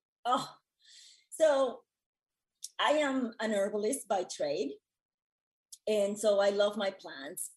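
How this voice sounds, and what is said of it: Strained, failing voice. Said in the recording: “Take a moment, cough it out ... I'm sorry, my voice is going”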